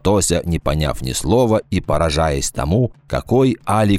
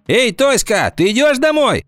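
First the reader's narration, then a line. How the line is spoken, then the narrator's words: Two voices shouting. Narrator (Russian): крикнули ей Гвоздева с Собакиной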